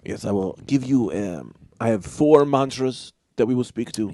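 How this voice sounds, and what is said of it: Put-on mixed foreign character accent. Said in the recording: “You seem to be laughing at my accent, but I am a traveled man, so I have many different accents that come in and out.”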